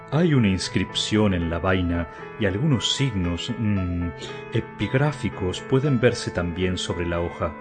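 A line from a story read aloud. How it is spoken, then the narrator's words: Plain. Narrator (Spanish): dijo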